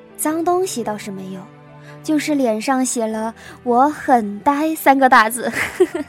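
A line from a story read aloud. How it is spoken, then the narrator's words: Laughing. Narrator (Chinese): 徐导笑着说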